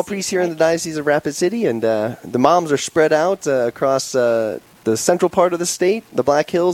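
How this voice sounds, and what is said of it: New York accent. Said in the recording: “I wonder whose mom that could be based on your accent.”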